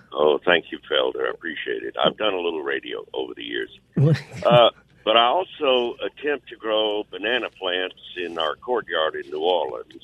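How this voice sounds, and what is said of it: Great radio voice. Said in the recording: “What a great voice. Radio voice.”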